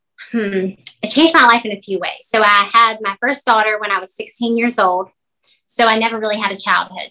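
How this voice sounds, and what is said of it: Southern American accent. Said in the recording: “that Southern accent”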